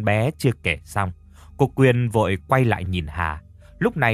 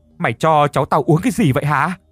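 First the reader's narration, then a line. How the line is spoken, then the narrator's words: Shouting. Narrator (Vietnamese): Cô Quyên hét lên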